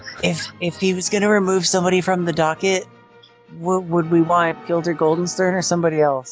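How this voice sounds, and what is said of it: Whispering. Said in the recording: “can I whisper too?”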